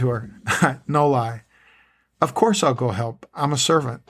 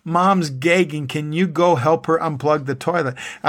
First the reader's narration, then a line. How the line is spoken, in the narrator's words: my eldest daughter, Sarah, yelling at me